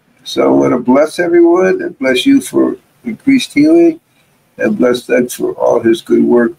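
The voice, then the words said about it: Worn-out, tired voice. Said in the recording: “I didn't sound so good today. My voice is worn out from talking nonstop for 2 days.”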